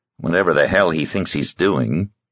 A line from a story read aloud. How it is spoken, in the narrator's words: he added under his breath